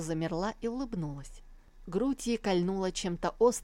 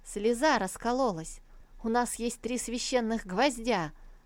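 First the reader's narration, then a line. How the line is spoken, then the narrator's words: Joyful proclamation. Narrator (Russian): радостно провозгласил хранитель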